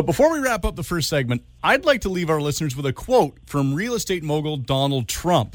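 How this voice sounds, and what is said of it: Usual voice. Nothing is said of it.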